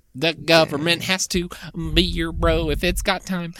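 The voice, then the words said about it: Country twang accent. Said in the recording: “You kind of had a country twang there.”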